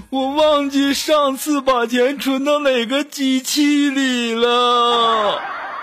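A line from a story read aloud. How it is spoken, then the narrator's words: Crying. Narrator (Chinese): 我们的锦凡就哭着说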